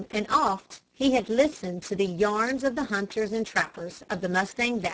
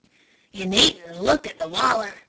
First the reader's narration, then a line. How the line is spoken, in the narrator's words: whispered Joe